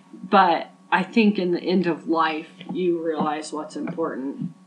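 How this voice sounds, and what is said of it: Emotional, choked-up voice. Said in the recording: “wow, I'm getting all emotional”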